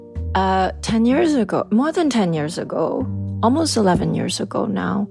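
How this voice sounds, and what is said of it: Speaks with a non-native accent. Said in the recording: “Paul died P-A-W, but with my accent, it sounds like Paul.”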